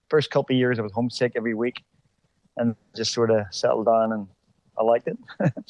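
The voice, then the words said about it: Belfast accent with slight American twang. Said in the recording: “I can hear a few little Americanisms in your accent, but you're still pure Belfast, my friend. ... you get that little bit of a twang now”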